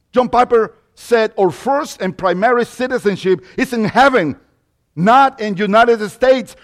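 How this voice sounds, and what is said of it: Mexican-accented English. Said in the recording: “that accent comes from Mexico”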